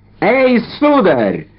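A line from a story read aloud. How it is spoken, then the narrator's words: Shouting. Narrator (Russian): закричал он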